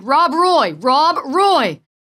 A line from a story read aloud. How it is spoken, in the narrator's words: Futilely, the dog's master, shouted